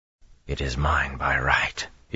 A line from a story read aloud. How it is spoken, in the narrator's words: he muttered each time